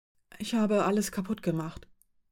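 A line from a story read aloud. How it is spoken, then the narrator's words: Whisper. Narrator (German): flüsterte sie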